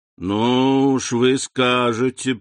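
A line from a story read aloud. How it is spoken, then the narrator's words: Joyless smiling drawl. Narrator (Russian): протянул Данглар, невесело улыбаясь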